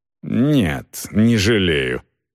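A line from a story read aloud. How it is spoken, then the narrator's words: Strained, forced out. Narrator (Russian): выдавил Пруф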